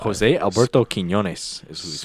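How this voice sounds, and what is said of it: Put-on accent on a name. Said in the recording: “How was that accent, though? ... Not bad. ... Pretty good. ... Can't roll my R's. It would have been better.”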